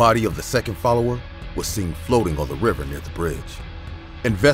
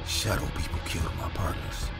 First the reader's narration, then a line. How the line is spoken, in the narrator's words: He was muttering